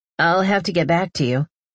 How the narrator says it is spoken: he chuckles

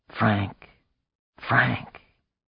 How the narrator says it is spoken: whispering

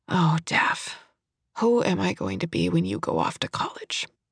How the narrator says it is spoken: Her eyes welled, and she said in a thick voice

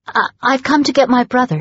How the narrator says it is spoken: she stuttered

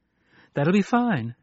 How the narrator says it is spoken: she said gaily

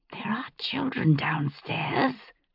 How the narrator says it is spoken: I hissed

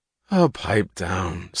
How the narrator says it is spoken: said Bertram Scudder, his voice bored

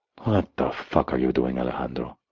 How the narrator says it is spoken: I murmured

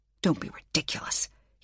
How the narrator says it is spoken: he snapped

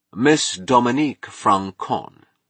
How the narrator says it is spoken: he announced solemnly

